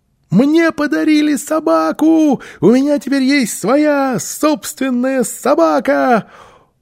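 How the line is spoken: Loud excited shouting. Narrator (Russian): Малыш громко крича

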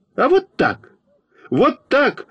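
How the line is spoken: Indignant shout. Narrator (Russian): возмущенно закричал я на Фокину

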